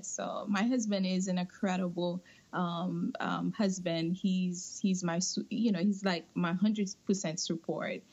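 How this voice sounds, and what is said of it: Non-native English accent. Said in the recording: “my accent and my English, and I don't know if he's going to understand what I'm saying”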